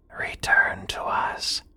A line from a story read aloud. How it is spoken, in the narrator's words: in a whisper